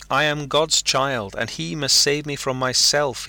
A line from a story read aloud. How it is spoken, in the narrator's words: he cried